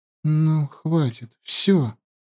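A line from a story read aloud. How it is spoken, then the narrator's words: Whisper. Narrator (Russian): наконец прошептала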